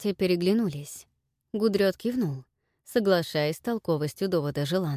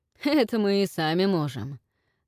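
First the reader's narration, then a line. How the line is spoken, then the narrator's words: Chuckling. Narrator (Russian): хохотнул Вальгард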